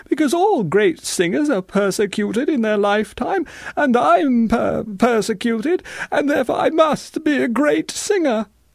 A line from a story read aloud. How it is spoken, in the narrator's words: sobbed Victoriana